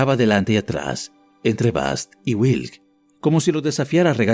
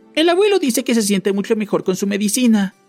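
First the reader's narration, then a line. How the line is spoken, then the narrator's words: Louder, irritated tone. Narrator (Spanish): dijo Pem, en un tono más alto, claramente irritada por ser ignorada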